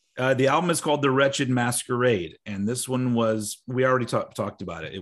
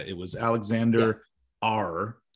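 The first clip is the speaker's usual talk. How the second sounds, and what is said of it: Pirate voice impression. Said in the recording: “you just did a pirate impression.”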